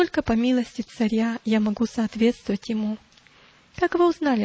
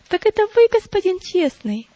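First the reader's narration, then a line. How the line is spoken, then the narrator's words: Exclaimed. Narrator (Russian): воскликнула Христиана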